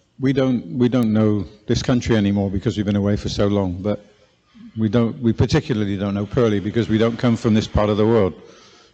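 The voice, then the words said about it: Southwest English accent. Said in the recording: “We come from the southwest originally. You can probably hear it in my accent.”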